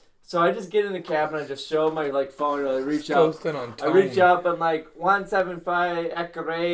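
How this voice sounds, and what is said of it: Usual voice. Nothing is said of it.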